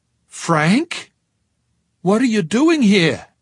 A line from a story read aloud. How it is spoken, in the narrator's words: Her voice began to rise